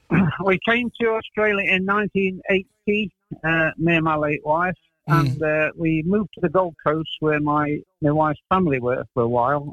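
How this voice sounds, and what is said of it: English accent. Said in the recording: “obviously your accent, you're English”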